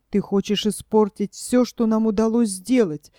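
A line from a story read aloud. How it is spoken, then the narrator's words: Angry whisper. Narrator (Russian): сердито зашептала редиска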